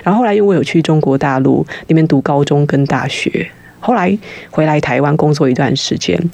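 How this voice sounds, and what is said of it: Very unusual mixed accent. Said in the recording (Chinese): “我们家族应该是母语算是广东话 ... 录音带字正腔圆的中中文 ... 佣人会讲英文，于是就促成了我这个十分奇怪的口音”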